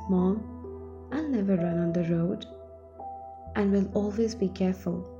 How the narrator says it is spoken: Ram broke his silence and said

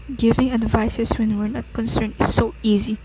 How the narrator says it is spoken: murmured the father

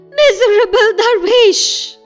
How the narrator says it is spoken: I shrieked

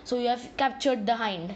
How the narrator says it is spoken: he said

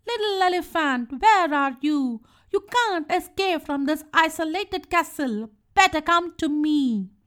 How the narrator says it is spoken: She shouted angrily

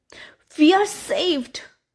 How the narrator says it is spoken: cried her mother

